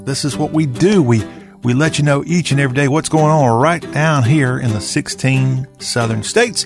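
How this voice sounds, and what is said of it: Southern American accent. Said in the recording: “Talk with a Southern Accent ... we have that southern dialect in our talk”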